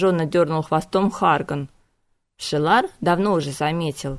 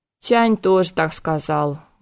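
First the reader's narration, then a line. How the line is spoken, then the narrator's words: Sad sigh. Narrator (Russian): грустно вздохнул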